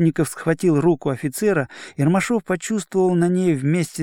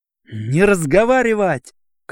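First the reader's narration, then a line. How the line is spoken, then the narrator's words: Shouted. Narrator (Russian): крикнул на него Ромашов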